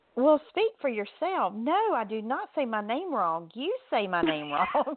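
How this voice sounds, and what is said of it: Southern American drawl. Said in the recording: “This southern drawl that I have”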